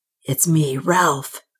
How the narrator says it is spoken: came a hoarse whisper

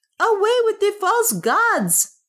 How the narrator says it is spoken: shouted others

